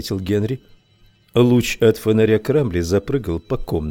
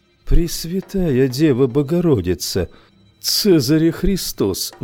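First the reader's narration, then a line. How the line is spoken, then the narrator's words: Sighing. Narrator (Russian): вздохнул я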